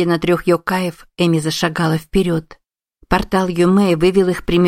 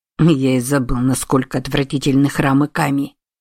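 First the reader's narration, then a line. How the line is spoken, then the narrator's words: Hissed from behind. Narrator (Russian): прошипел сзади Сусаноо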